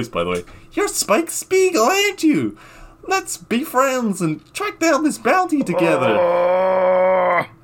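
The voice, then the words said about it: Hyperactive childlike character voice. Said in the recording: “this hyperactive girl-boy thing, child... in this exact voice”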